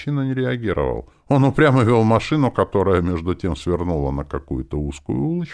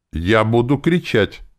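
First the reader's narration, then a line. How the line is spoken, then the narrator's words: Firm voice. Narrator (Russian): сказала она твердым голосом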